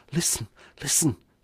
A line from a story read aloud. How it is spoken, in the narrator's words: whispered